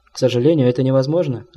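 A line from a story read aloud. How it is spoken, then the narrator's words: Plain reply from young man. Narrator (Russian): ответил молодой врач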